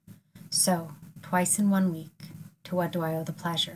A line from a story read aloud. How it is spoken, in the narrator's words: he asked